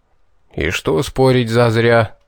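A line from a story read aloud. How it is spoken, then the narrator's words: Throat-clearing grumble, old man. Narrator (Russian): откашлившись, проворчал дед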